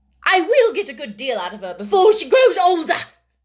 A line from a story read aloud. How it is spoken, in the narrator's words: exclaimed Miss Minchin